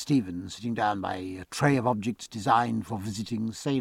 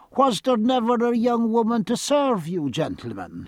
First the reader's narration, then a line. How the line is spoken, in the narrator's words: he cried